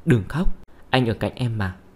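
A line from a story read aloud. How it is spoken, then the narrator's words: Gentle tender voice. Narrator (Vietnamese): giọng điệu dịu dàng nói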